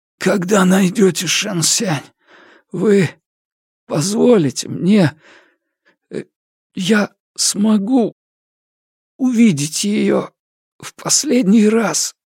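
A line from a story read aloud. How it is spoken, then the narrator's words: Hoarse, pleading. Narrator (Russian): хрипло произнес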